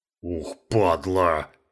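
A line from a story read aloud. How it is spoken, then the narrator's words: Deep bass voice. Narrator (Russian): пробасил Гена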